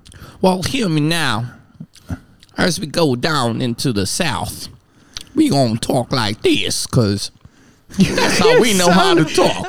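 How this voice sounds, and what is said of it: Put-on Southern American accent. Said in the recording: “do your American accent ... You sound like a mine prospector”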